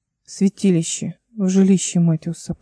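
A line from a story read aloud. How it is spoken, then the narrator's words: Quiet explanation. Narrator (Russian): пояснила Эл тихо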